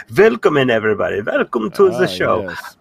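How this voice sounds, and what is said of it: Bad put-on German accent. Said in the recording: “my bad German accent”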